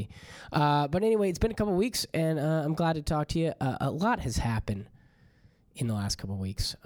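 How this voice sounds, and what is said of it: Hoarse, cracking voice. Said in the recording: “my voice is a little hoarse, ... it sounds like I'm going through like a stage of puberty”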